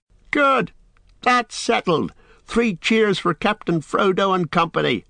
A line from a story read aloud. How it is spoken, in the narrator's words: they shouted